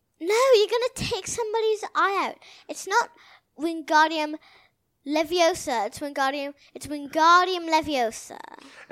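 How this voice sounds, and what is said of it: Imitated Hermione accent. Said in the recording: “Hermione accent ... Ron doing imitating Hermione ... It's a pretty good accent, though.”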